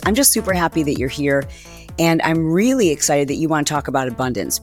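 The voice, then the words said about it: Raspy voice from laryngitis. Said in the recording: “I'm just getting over a little bit of laryngitis ... the raspiness in my voice”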